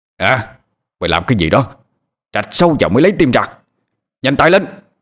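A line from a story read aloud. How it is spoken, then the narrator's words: Shouting. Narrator (Vietnamese): Mô lệnh lại quát lên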